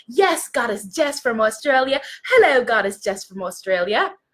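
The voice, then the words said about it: Attempted put-on accent, unclear which. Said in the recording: “I don't know what accent that was, by the way, sis.”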